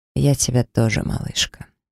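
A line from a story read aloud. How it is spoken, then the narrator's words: Quiet, strained reply. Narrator (Russian): монстр не выдержал напряжения, также негромко ответив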